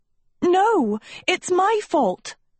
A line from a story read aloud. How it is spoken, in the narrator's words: Sophie cried